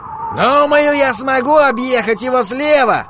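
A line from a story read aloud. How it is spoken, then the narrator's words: Shouted reply. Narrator (Russian): прокричал Холлоран в ответ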